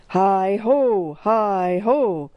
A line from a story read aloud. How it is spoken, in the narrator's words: bellowed the muscular driver